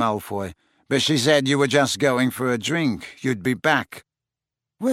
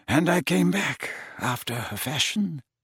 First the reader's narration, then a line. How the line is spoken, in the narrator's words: mumbled Dumbledore